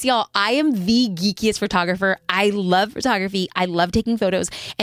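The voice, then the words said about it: Excited, enthusiastic voice. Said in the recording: “hear the excitement in my voice”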